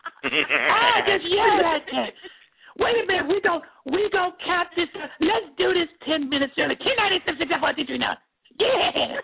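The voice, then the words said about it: Growly baby-talk imitation of a singer. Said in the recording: “pretty good Macy Gray impression ... that kind of growly baby talk”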